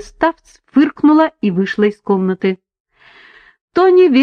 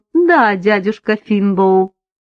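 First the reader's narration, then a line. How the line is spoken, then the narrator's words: Slightly mocking, matching tone. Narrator (Russian): Она улыбнулась чуть насмешливо и ответила ему в тон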